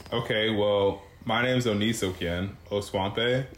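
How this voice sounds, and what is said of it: Put-on telemarketer podcast voice. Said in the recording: “podcast voice ... your telemarketer ... voice”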